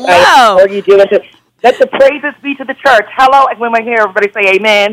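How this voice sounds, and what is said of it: Churchy sing-song church lady voice. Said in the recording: “you have your church girl voice on today”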